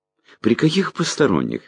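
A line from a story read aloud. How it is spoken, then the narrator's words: Cheerful question. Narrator (Russian): весело спросил я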